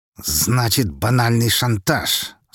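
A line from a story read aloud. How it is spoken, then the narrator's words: Words through clenched teeth. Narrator (Russian): сквозь зубы процедил Харитонов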